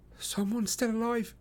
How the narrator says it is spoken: I plead

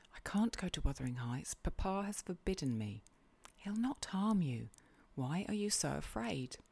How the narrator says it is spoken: whispered Catherine

